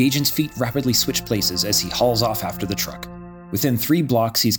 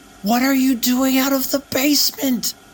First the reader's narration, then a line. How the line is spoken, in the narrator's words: he yells over the rush of air